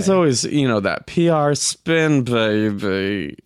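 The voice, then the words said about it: Austin Powers impression voice. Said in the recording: “Was that your Bohemian Rhapsody accent? ... That was Austin Powers.”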